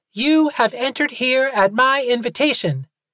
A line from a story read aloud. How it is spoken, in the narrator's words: the voice cackled